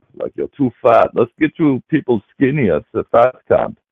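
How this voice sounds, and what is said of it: Silly put-on German accent. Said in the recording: “I could do a silly accent, you know, like I'm a sort of a counselor at the camp”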